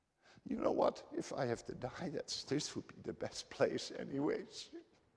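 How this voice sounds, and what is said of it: Emotional, moved voice. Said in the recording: “I'm a little bit emotional”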